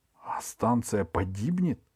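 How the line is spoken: Stunned whisper. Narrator (Russian): ошарашенно прошептал Артем

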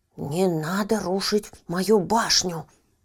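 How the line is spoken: Menacing. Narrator (Russian): грозно произнес Еня

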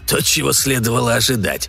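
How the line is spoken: Snort. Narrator (Russian): фыркнул

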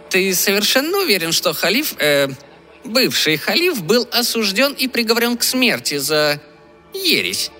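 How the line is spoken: High piercing voice. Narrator (Russian): спросил он высоким пронзительным голосом

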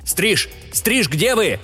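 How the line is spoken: Alarmed shout. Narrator (Russian): закричал, увидев лишь слегка извивающийся в пространстве обрывок страховочного линия

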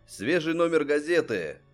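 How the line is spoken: Boy hawker shouting. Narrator (Russian): кричал мальчишка зазывала

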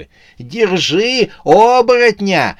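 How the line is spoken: Shouting woman. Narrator (Russian): кричала она

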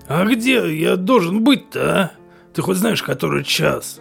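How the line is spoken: Sleepy grumble. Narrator (Russian): Сонно пробурчал Сэм

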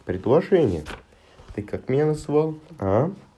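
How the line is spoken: Shouting. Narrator (Russian): кричала

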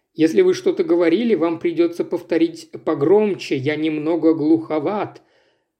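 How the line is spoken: Toothless, slurred mumbling. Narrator (Russian): Прошамкал попутчик, нещадно искажая слова и глотая целые слоги

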